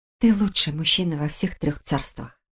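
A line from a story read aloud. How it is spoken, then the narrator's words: Quiet whisper. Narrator (Russian): ее тихий шепот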